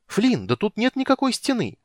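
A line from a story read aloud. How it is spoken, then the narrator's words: Exclaimed. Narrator (Russian): воскликнул Тассельхов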